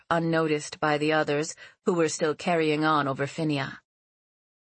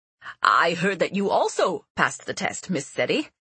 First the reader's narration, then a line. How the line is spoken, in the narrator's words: he said cheerfully